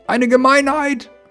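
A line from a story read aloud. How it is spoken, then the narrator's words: Cement mixer calling from behind. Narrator (German): rief der Zementmischer von hinten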